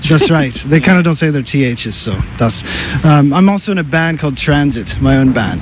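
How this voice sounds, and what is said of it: Irish accent. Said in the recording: “he's got an Irish accent ... a wee bit there”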